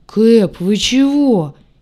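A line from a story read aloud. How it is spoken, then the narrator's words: Frightened booming. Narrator (Russian): испуганно прогудел белый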